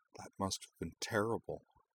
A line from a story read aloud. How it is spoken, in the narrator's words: said softly